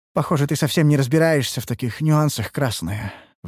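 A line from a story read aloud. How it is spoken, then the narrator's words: Sighing. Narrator (Russian): вздохнула Ульданте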